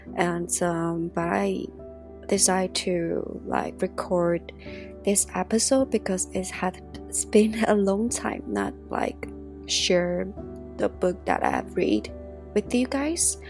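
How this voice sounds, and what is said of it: Voice sounds a little ill. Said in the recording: “I just got a little ill. You can hear it from my voice maybe.”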